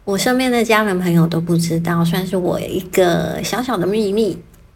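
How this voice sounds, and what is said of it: Quiet, hushed speaking voice. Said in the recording (Chinese): “原谅我今天小小声的说话”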